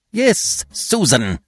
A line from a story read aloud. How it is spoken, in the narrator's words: snapped the efficient one, who had always a short way with the domestic staff